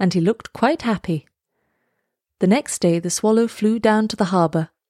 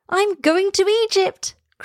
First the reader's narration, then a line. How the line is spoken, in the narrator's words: cried the swallow